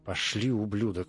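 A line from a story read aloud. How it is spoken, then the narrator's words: Growled. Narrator (Russian): прорычал детектив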